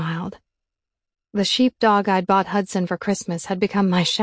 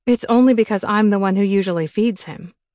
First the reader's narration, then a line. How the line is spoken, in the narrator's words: I said